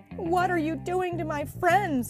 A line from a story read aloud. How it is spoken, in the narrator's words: cried Mikey